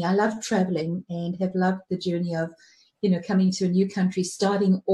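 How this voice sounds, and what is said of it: Lovely accent, not typical Kiwi. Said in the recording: “your accent is lovely. It is tricky because you do not sound like an average Kiwi”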